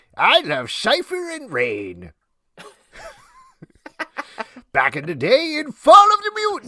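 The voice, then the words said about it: Stan Lee impression. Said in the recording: “your Stan Lee impression”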